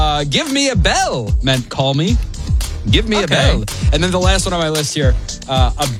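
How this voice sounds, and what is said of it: Usual voice. Nothing is said of it.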